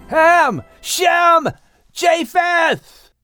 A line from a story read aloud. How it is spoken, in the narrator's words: Noah finally yelled out